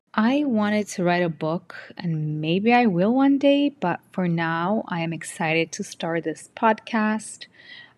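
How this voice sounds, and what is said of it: Non-native English accent. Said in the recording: “As you can hear, I have an accent. I immigrated to the US in 2011, and I barely spoke English.”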